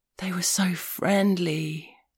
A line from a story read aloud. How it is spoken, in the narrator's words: he said, in a gasp of awestruck wonder, like a man sitting at the edge of the Grand Canyon at sunset